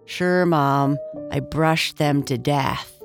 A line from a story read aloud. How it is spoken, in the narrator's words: said in a sad voice